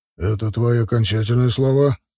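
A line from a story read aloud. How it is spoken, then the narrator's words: Calm question. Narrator (Russian): спокойно спросил Вида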